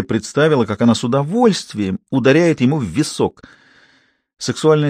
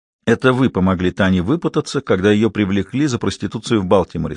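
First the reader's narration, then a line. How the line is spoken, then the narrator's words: Plain. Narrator (Russian): сказала она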